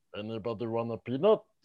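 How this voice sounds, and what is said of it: Imitates another person's voice. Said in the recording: “my impression of Andre the Giant. That's my impression of Jason Segel”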